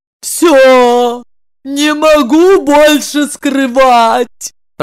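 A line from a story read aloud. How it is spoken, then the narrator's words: Moaning. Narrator (Russian): простонала она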